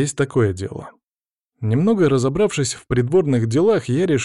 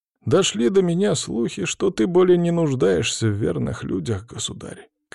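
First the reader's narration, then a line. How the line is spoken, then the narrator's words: Prince, sad sigh. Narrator (Russian): князь грустно вздохнул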